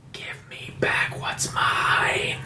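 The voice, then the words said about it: Raspy creature voice. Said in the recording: “you hear kind of a raspy voice”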